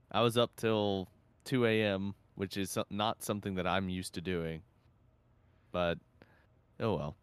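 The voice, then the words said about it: Tired-sounding voice. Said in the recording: “I'm quite tired. If you may be able to hear that in my voice”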